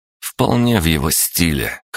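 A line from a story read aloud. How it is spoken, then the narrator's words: Wry snort. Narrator (Russian): хмыкнул Александр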